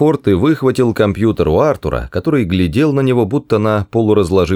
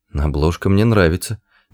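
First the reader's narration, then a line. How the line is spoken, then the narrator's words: Muttered. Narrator (Russian): пробормотал он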